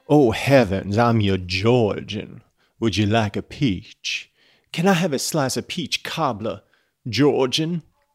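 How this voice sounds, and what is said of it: Put-on accent. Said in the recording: “You can see that I am a master of accents.”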